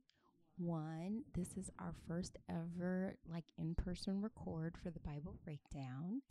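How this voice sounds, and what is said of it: Calm, measured public-radio voice. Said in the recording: “I'm using my NPR voice”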